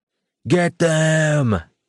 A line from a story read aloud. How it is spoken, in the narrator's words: shouted